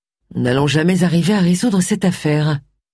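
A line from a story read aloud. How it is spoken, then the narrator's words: Gloomy declaration. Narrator (French): déclara-t-elle d'un ton lugubre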